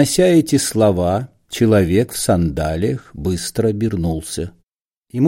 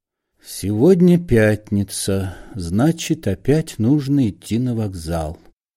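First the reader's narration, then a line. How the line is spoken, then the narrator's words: Quiet. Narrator (Russian): негромко сказал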